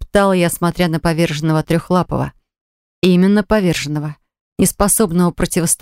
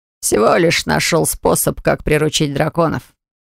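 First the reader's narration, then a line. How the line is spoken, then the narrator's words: Answered with a snort. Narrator (Russian): ответил Оливер и хмыкнул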